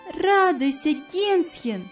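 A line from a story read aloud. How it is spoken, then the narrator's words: Cheerful. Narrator (Russian): весело сказала она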